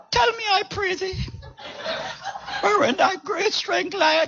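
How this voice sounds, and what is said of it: Dramatic character voice with cracking. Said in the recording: “Let me put on my Hollywood voice ... and the voice cracking”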